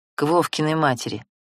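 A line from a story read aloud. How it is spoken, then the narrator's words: Reluctant through teeth. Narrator (Russian): неохотно процедил он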